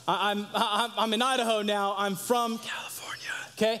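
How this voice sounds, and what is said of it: Whispering. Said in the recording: “I have to whisper it. ... I have to whisper that.”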